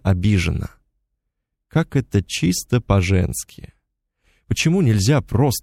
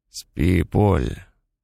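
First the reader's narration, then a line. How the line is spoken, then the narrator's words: Mumbled. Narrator (Russian): пробормотал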